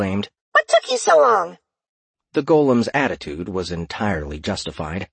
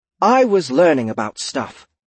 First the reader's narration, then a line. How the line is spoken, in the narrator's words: the elf replied curtly